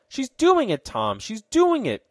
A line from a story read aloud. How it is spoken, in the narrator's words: cried Ned exultingly